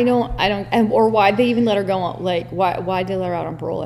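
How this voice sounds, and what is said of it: Usual voice. Nothing is said of it.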